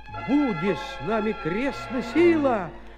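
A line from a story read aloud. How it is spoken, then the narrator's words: Shout. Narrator (Russian): закричал тогда Гаврила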